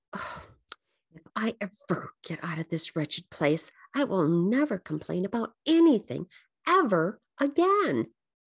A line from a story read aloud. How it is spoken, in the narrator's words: Elizabeth mumbled to herself